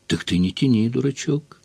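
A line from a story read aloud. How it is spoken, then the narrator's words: Heated mutter. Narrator (Russian): горячо бормотнула Таня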